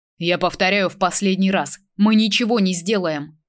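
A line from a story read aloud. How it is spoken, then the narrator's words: Angry growl. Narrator (Russian): Джек зло рыкнул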